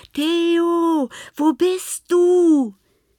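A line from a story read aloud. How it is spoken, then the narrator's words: Called out. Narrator (German): rief Lena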